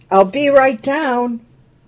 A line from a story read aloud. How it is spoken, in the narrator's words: called out